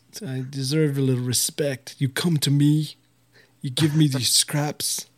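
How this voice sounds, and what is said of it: Poor Godfather-style mobster impression. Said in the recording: “that was a terrible Godfather impression”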